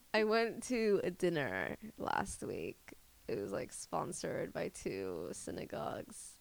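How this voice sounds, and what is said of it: Deep vocal fry. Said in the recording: “the vocal fry is getting deep right now”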